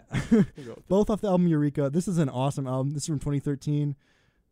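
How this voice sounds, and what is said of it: Strained, worn-out voice. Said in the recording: “losing my voice ... I'm just kind of screaming”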